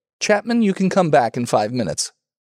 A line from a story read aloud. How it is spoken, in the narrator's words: Broughton, speaking hardly and stiffly, said